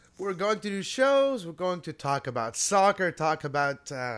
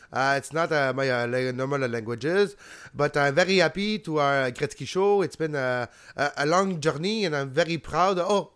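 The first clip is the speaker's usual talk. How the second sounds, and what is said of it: Put-on rural Quebecois accent. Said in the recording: “was going with his rural Quebecois accent”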